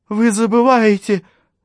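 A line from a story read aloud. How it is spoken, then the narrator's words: Trembling suppressed voice. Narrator (Russian): сказала Джулия, дрожа подавленным голосом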